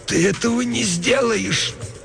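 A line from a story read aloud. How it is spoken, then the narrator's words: Groaning, hoarse. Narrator (Russian): Она застонала чуть громче и прохрипела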